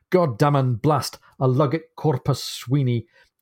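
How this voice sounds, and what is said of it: Furious put-on Scottish accent. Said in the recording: “I'm going to try and say this in nothing quite like the right accent ... in his furious Scotch voice”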